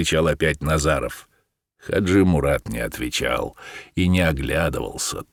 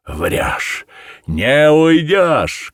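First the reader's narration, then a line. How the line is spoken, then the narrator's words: Stung, indignant shout. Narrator (Russian): крикнул Назаров, задетый за живое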